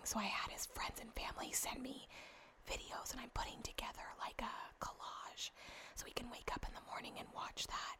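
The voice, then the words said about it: Whispering. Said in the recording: “Hopefully you guys can hear me whispering.”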